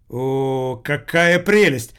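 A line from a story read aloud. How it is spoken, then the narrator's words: Delighted exclamation. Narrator (Russian): воскликнул учитель Воркута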